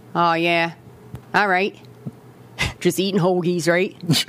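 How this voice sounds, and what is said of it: Attempted Philly accent. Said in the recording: “is that a Philly accent? ... No, I'm working on it.”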